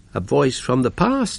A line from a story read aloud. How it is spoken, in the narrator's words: she said